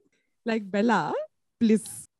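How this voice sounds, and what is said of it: Indian accent. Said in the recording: “my Indian accent is really coming out very strongly in this because I've become proper judgmental auntie ... your Indian accent is coming out really strong”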